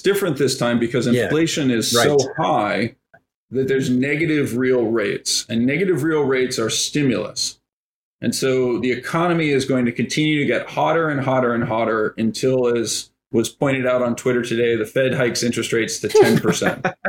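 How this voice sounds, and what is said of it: Flat monotone sarcastic delivery. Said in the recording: “my monotone”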